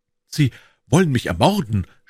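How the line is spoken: Stammering. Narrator (German): stammelte er

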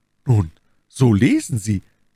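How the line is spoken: Young woman's proud joyful cry. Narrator (German): rief im Übermaß der Freude und des Stolzes die unglückselige junge Frau

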